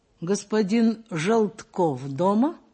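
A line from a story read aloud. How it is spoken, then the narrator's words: Plain. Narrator (Russian): спросил Николай Николаевич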